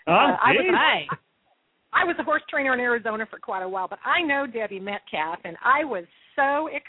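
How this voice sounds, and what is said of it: Texas accent. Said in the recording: “I love hearing that Texas accent.”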